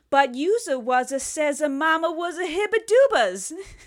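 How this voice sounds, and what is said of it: Mocking cartoonish hillbilly character voice. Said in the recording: “everyone talks like a fucking asshole ... They're all Jar Jar Binks ... every hillbilly trope”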